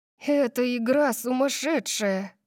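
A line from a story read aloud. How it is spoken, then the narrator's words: Breathed out. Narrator (Russian): выдохнула Дарси, от волнения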